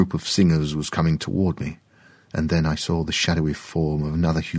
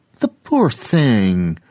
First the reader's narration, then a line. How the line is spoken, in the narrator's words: another person called out